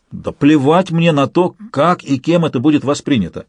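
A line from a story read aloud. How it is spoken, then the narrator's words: Exclaimed. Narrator (Russian): воскликнул Алексей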